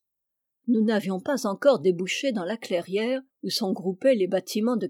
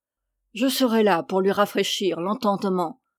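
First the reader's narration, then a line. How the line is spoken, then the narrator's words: Muffled young man's voice. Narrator (French): prononça d'une voix sourde le jeune homme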